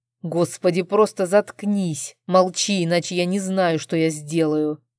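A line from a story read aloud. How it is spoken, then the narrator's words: Tense, frightening growl. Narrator (Russian): прорычал муж, пугая меня своими напряженными интонациями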